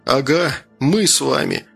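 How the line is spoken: Chuckle. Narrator (Russian): хохотнул Гордей

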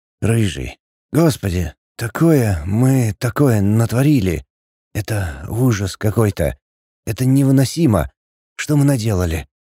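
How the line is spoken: Faint, breaking whisper. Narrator (Russian): Еле слышный шепот, голос слабый, срывается на каждом слове

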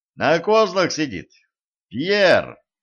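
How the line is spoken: Shouting. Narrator (Russian): крикнул Денис кучеру

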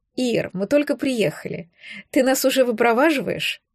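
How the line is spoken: Laughing. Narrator (Russian): Рассмеялась я

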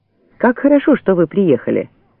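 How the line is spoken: Joyful greeting. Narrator (Russian): радостно встретил

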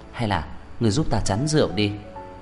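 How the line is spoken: Quiet, after a cough. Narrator (Vietnamese): Tôi ho khan một tiếng nhỏ giọng

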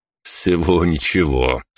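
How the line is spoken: Ironic snort. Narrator (Russian): с иронией хмыкнул

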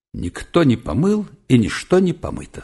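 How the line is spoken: Plain. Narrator (Russian): сказал Малянов вслух

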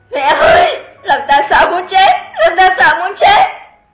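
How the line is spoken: Terrified loud wail. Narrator (Vietnamese): Lục Tử Thanh há mồm gào to

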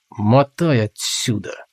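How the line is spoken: Through gritted teeth. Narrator (Russian): сквозь зубы процедил Толгрим

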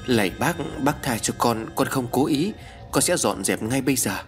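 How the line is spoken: Trembling mumble, girl. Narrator (Vietnamese): Con bé Vi run rẩy, mồm lẩm bẩm nói

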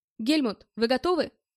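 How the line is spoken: Shouted. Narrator (Russian): крикнул

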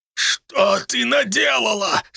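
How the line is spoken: Moaning. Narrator (Russian): стонал он

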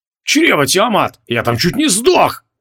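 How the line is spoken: Howling wail. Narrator (Russian): взвыл Креол

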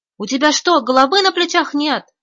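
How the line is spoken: Shouted. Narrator (Russian): закричал он

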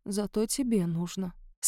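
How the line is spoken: Barely audible. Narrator (Russian): сказала Марго едва слышно

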